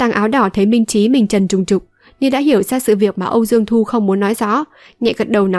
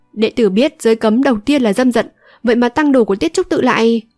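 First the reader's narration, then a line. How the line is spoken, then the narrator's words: Raised voice. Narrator (Vietnamese): Âu Dương Thu cao giọng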